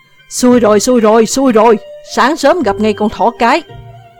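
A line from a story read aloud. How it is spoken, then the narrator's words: Group shouting in unison. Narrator (Vietnamese): Đám lâu la của lão đồng thanh gào lên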